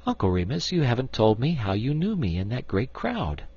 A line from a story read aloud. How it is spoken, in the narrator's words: presently she laughed and said